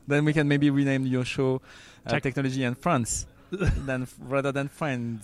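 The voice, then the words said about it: French accent. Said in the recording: “I'm French, as you can guess with my accent.”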